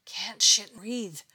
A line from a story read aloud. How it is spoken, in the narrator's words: panted, in pain